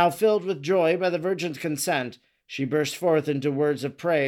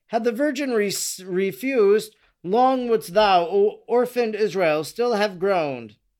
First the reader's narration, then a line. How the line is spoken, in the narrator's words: addressing her nation, she exclaimed